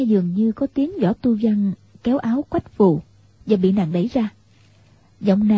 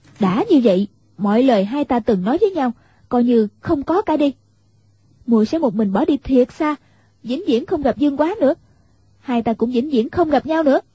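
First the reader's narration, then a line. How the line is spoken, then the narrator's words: Sharp raised voice. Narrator (Vietnamese): Quách Phù cao giọng gắt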